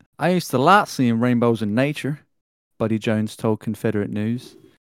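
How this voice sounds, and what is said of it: Put-on Southern US accent. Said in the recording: “let me read it in the southerner's accent.”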